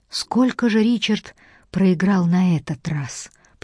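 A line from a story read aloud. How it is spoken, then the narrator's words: Whisper. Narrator (Russian): прошептала Джейн, оглядываясь на дверь, как будто брат мог ее услышать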